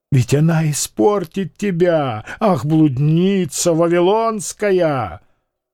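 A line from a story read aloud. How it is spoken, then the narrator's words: Vicious, excited shrieking. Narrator (Russian): губы вздрагивали, и грубыми, циничными словами он начал говорить о Медынской азартно, злобным визгом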